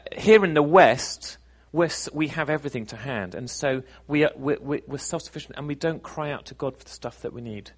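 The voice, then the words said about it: British accent. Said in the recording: “Britain where I'm from, in case you weren't sure where my accent's from”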